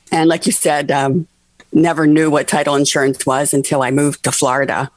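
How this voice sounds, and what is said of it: Philadelphia accent. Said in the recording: “you probably can figure out from my accent, I'm originally from Philadelphia”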